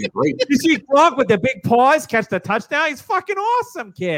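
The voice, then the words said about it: Exaggerated Boston accent. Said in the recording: “Boston accent ... Hey, I can do the accent.”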